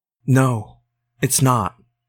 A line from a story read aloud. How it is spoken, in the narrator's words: whispered